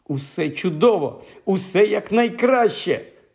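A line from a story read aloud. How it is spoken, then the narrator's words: Joyful exclaiming. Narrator (Ukrainian): радісно вигукував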